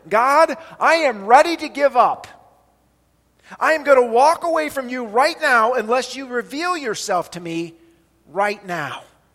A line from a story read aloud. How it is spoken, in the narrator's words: In anger and frustration and desperation, he cried out to the Lord